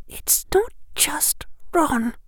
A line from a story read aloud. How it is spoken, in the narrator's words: Hermione said in almost a whisper